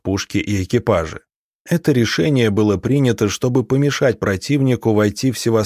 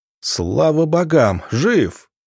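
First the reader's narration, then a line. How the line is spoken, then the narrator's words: Joyful exclamation. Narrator (Russian): радостно воскликнул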